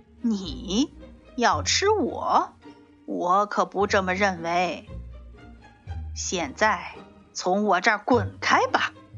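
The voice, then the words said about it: Sneering voice of a horse. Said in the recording (Chinese): “马冷笑着说”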